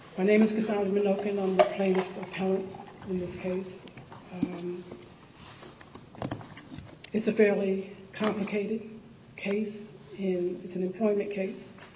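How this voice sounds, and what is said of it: Hoarse, strained voice. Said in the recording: “Excuse my voice, I'm losing it at the moment.”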